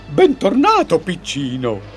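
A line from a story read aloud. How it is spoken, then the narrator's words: Exclaiming. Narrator (Italian): esclama Fagin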